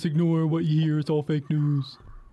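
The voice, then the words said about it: Imitates another person's voice. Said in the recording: “that's the worst imitation of Trump I've ever heard in my life.”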